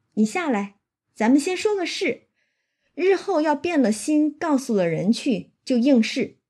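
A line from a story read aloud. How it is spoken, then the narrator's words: Laughing. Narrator (Chinese): 他就跟薛蟠笑着说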